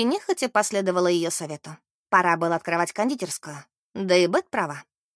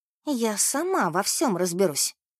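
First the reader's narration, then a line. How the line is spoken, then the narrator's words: Furious whisper. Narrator (Russian): кипя от гнева прошептала Мэри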